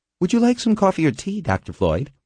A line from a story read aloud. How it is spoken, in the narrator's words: she asked cheerfully